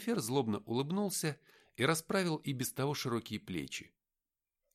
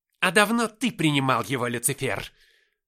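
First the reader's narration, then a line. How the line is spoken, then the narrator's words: Barked. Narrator (Russian): рявкнул Михаил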